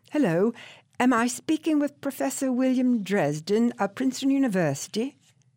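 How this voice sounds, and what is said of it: Confident British-accented woman's voice. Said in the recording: “She had a British accent and a confident tone, like one accustomed to chucking authority around.”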